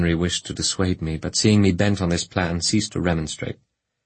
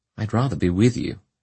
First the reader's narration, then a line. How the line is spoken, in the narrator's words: he said